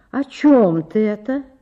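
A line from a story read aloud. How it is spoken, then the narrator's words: Plain question. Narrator (Russian): спросила Ольга Ивановна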